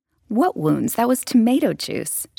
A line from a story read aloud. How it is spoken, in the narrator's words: she laughed indignantly